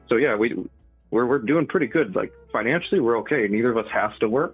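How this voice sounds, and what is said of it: Canadian accent. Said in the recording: “When you said doing pretty good, I finally heard your Canadian accent.”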